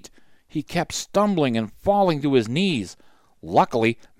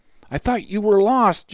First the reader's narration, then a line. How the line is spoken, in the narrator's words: Johnny stuttered through his chattering teeth